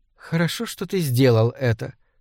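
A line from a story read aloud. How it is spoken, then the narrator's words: Whispered in ear. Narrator (Russian): шепнула она мне на ухо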